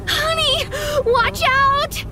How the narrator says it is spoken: my mom screaming from the passenger seat

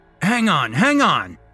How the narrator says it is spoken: Alex shouts over the noise

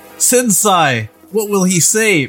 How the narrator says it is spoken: Mikey yelled slash asked

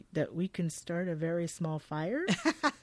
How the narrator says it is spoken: he responds flatly

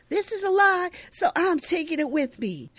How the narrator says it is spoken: angrily, yelling behind him

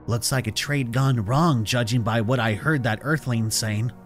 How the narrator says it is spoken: Waddell whispered to me

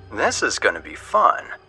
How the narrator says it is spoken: he said, his voice thick with mischief

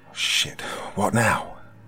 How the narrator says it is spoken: I whimpered desperately

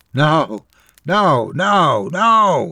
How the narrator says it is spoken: his voice breaking

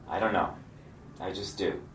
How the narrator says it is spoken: I calmly replied

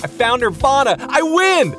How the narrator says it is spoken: screamed

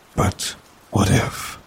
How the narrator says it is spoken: He sighed deeply

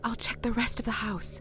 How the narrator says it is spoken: she said, her voice little more than a whisper

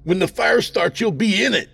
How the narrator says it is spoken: He screamed in warning

